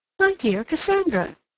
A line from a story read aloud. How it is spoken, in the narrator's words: she exclaimed